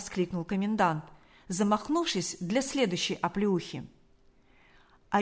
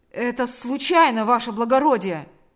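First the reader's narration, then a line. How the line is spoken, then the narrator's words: Shouted. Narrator (Russian): закричал он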